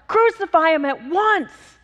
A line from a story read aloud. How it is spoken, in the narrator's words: they kept shouting with a deafening roar